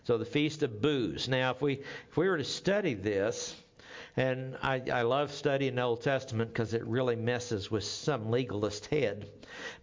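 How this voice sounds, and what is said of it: Oklahoma accent. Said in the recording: “my Okie accent”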